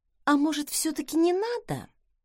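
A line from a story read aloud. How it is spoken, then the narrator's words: Quiet, plaintive question. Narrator (Russian): тихо и жалобно спросила я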